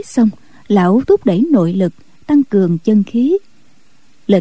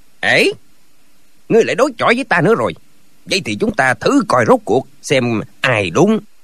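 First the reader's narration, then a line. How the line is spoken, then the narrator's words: Furious shout. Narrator (Vietnamese): Đào Cán Tiền cả giận quát lên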